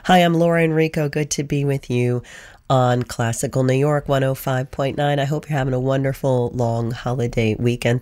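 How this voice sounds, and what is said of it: Slightly hoarse voice. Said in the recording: “Sorry if I'm still a little hoarse. Oh, the pollen.”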